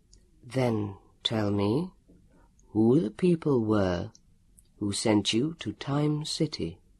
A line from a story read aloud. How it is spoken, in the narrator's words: Elio's voice said calmly